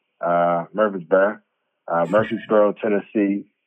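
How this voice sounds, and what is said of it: Imitated Tennessee local accent. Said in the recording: “It's Murfreesboro, but you know, with their accent.”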